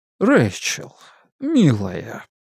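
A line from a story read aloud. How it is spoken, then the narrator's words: Slow, gentle, soothing. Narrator (Russian): ее отец говорил медленно, ласково, как разговаривают с человеком, пребывающим в состоянии временной, но опасной истерии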